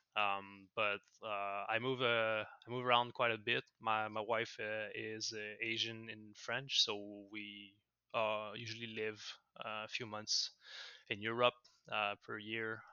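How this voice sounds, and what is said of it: French-Canadian accent. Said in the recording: “I'm a French-Canadian, if the accent gave it away.”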